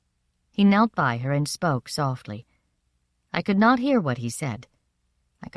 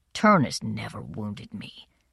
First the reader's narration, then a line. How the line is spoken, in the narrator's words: he says grimly